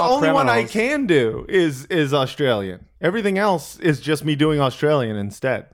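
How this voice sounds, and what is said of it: Usual voice. Nothing is said of it.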